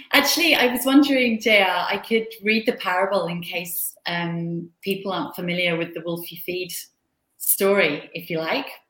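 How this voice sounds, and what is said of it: Australian accent. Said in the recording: “you got to love an Australian accent”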